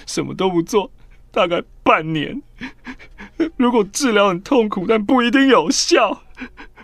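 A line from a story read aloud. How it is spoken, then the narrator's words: Crying while speaking. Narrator (Chinese): 我边哭边说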